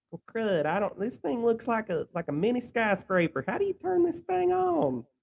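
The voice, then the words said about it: Imitates another person's voice. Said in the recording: “do an impression of Drink trying to boot up his Xbox”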